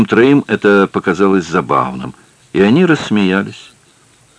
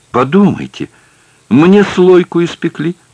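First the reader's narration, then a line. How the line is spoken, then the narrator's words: Exclaimed. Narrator (Russian): воскликнула Сесиль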